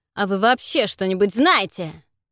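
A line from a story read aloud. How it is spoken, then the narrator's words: Barked. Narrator (Russian): рявкнул Кейт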